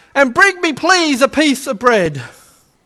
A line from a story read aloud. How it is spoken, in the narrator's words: called out